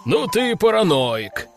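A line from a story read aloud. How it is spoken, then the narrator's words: Laughing. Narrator (Russian): хохотал Брак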